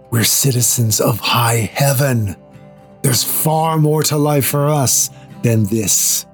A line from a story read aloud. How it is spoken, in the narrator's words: Paul whispers into our ears